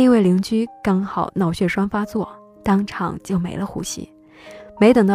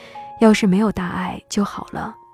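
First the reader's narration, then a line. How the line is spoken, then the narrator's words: Sighing. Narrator (Chinese): 爸爸叹了一口气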